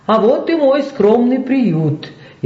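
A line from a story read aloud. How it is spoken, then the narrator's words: Cheerful. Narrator (Russian): весело проговорил Найджел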